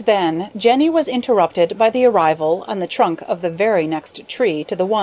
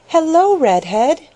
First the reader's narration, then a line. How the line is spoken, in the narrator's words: exclaimed Jenny Wren